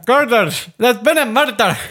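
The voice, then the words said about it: Put-on Scottish accent. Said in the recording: “I can't even do a Scottish accent ever. ... That's pretty good.”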